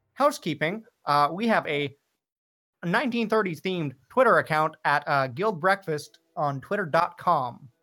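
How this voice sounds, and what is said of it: 1930s radio announcer voice. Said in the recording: “transported back to a version of the 30s where everybody talks like this in the radio announcer voice”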